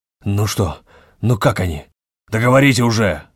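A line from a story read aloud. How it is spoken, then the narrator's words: Growling. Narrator (Russian): рычал Ревский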